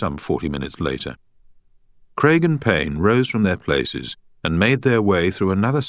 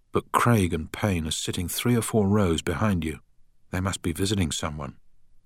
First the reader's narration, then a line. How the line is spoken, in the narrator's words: whispered Beth